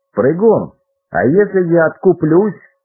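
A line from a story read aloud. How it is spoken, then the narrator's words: Loud shout. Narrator (Russian): громко крикнул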